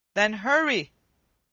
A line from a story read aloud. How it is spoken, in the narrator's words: said Humpty